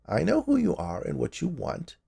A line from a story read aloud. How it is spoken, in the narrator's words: she said in a creaky voice